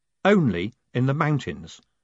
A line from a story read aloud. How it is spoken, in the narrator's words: said Moist calmly